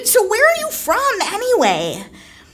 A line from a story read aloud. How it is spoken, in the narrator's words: I just blurted